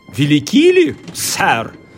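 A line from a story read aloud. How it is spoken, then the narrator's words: Shouted question. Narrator (Russian): закричал Сквайр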